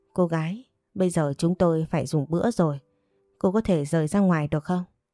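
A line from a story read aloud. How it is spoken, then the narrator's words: Annoyed, displeased tone. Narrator (Vietnamese): vị thanh tra kia khó chịu nói với giọng nói không vui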